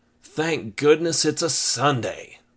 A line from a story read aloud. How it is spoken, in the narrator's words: Reuben sighed when he thought of how long he slept in